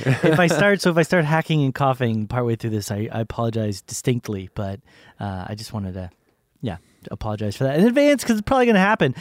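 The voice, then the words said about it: Congested, sick-sounding voice. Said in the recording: “Mr. McSicky Pants ... You can probably hear it still. It's like, it feels like it's in the front of my face ... Like all the cold and everything like that.”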